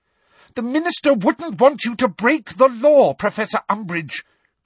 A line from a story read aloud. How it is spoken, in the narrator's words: cried Hermione